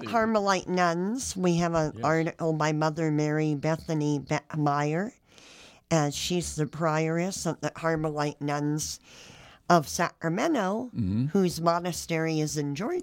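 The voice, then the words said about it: Slightly hoarse, strained voice. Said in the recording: “I'm losing my voice here a little.”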